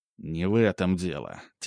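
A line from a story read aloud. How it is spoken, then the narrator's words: Quiet. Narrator (Russian): тихо сказал Ремезов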